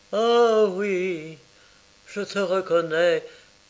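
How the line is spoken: Exclaimed. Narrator (French): s'écria-t-il

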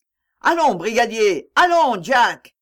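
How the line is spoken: Shouting crowd. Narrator (French): criait-on

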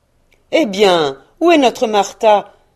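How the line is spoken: Exclaiming. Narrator (French): s'écria Bob Cratchit

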